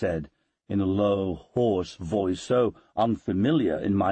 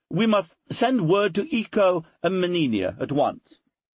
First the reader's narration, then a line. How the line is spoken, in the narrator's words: cried Bethesda, between planting kisses all over my face